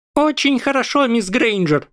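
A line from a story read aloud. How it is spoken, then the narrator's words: Squeaky voice. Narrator (Russian): пропищал Фливиус Флитвик, профессор заклинаний и по совместительству декан Когтеврана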